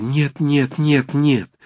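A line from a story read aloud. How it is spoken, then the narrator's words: Urgent pleading whisper. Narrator (Russian): заговорила она горячим, поспешным, умоляющим шепотом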